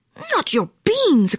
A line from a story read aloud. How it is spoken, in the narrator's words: cried Skippito, outraged